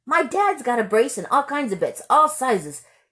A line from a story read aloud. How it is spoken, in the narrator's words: Yella said eagerly